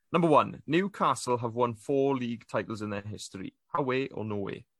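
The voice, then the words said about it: Regional English accent. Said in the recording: “It sounds way better in your accent than it would.”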